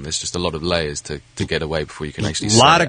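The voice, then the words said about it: Posh-sounding British accent. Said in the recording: “besides the accent ... very posh ... I'm not as posh as I perhaps sound”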